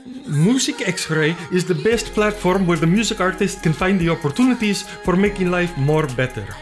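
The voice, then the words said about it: Put-on Spanish accent. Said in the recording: “I've decided to tell you about Music X-Ray in a Spanish accent.”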